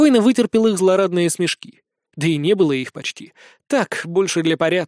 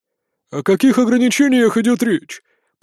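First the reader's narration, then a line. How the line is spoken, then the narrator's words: Grumbling. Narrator (Russian): проворчал самый жирный из старейшин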